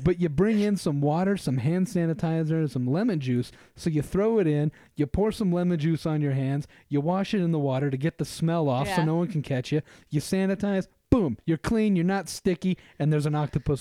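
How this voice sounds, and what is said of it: Put-on New York accent. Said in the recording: “I'm giving him a New York accent.”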